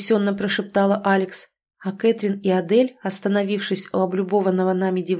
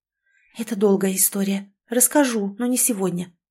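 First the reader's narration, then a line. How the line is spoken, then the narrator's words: Whispered. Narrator (Russian): прошептала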